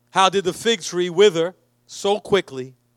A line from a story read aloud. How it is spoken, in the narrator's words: asked